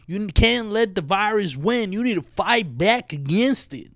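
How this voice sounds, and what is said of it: Put-on Southern accent. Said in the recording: “Maybe I have a southern accent now... I've been trying accents recently, and, you know, maybe I just found I could do a southern one”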